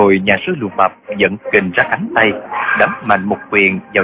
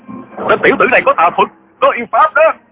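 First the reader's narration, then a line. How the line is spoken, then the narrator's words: Frightened, angry crowd clamoring. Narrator (Vietnamese): Cả đám hòa thượng vừa sợ vừa tức, nhao nhao hò hét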